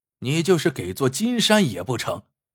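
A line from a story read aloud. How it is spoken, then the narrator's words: Cold reply. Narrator (Chinese): 郭小眼冷冷的回道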